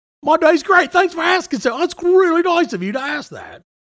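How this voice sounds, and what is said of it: Put-on British accent. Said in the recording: “Having a British accent when I'm not from that place. I can't help myself. ... so it is a British accent. ... It just changes sometimes.”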